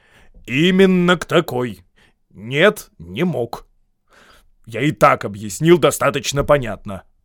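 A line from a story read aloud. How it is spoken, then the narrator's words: Angry reply. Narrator (Russian): сердито ответил волшебник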